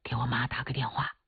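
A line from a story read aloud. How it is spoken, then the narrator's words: Whispered. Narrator (Chinese): 刘洪斌立马悄声说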